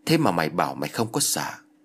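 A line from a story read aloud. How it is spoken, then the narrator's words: Mocking laugh. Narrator (Vietnamese): ông thầy tà cười rồi nói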